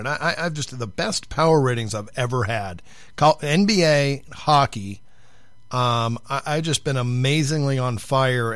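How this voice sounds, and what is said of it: Hoarse, strained voice from illness. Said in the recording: “I'm losing my voice, I've been sick”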